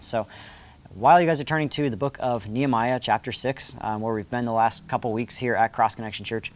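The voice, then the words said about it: Slightly raspy voice. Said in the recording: “My voice is a little bit raspy because I've been yelling with a bunch of kids.”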